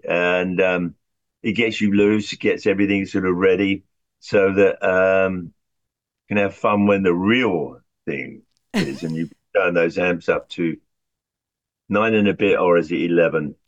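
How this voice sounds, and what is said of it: British accent. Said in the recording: “say that with a British accent”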